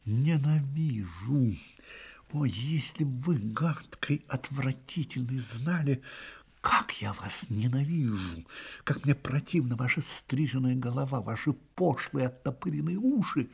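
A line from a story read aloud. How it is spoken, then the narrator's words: Hissed through clenched teeth. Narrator (Russian): вдруг стиснула зубы и процедила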